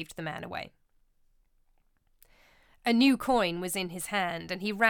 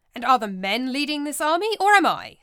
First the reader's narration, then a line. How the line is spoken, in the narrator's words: snapped Brutus